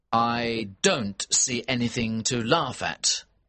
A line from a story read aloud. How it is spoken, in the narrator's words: said